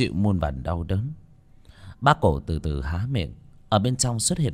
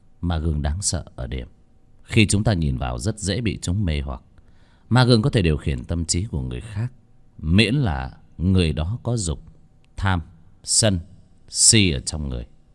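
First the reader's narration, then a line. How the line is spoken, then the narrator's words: Cold. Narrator (Vietnamese): Bác Cổ lạnh lùng nói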